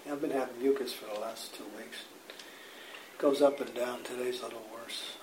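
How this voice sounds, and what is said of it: Hoarse, congested, strained voice. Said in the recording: “my voice is a little shot because I got some congestion in my chest... voice loss... it just kind of chokes my voice up”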